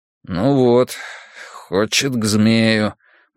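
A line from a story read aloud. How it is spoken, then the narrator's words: Mutter. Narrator (Russian): буркнул Драккайнен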